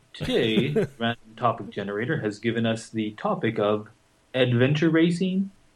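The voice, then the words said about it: Public radio announcer voice. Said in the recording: “doing my NPR voice.”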